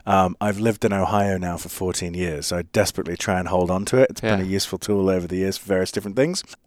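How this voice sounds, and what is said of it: English accent. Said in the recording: “This is not an Ohio accent. It is in fact an English accent.”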